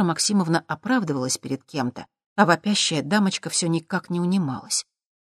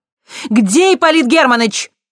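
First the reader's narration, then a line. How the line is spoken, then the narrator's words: Angry shout. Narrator (Russian): гневно крикнула Виктория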